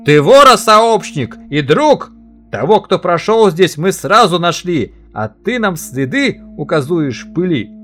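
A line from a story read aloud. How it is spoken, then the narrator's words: Master shouting. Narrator (Russian): хозяин крикнул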